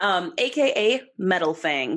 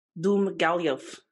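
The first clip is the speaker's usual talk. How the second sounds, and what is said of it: Put-on Russian accent. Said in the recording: “Say it in your Russian accent.”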